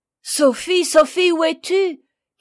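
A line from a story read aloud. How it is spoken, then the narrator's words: Terrified shout. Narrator (French): cria Jean épouvanté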